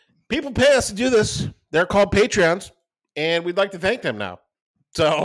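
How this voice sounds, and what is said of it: Usual voice. Nothing is said of it.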